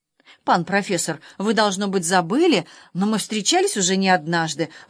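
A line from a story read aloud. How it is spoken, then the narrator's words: Timid remark. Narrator (Russian): робко заметил пан Левкойник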